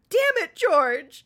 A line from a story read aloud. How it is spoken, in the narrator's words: I sobbed